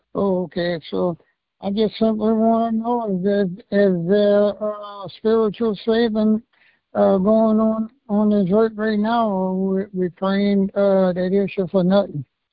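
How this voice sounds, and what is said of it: Very strong accent. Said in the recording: “you have a very strong accent, so I'm having a little bit of a hard time hearing and understanding you”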